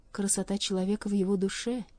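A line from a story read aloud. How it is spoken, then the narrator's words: Soft, gentle. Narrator (Russian): мягко промолвила она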